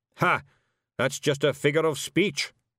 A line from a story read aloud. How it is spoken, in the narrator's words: snapped Zack-Zack